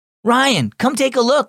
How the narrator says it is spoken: shouted Jack

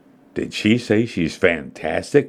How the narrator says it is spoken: murmured Jason in surprise

